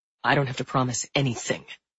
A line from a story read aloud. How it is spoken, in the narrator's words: Denny snarled